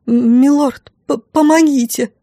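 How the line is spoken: Stammering mumble. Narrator (Russian): Заикаясь, пробормотала я

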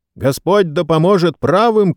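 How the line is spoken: Shout. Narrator (Russian): крикнул сэр Брайан Фитцуильям

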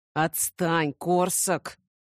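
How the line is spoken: Annoyed hiss. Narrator (Russian): нахмурившись, прошипел

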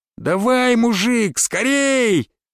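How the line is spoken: Shout. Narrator (Russian): крикнул

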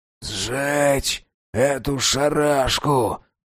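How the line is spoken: Hoarse, parched throat. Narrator (Russian): прохрипел он высохшим горлом

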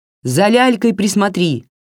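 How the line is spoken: Shouted, grandmother. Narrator (Russian): крикнула бабушка

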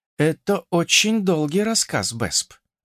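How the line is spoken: Resigned sigh, evasive. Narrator (Russian): обреченно вздохнув, попыталась съехать с темы Ада

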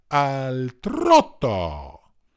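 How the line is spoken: Shouted. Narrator (Italian): il direttore gridò

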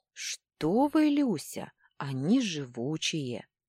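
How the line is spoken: Sighing. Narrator (Russian): вздохнул Дрык

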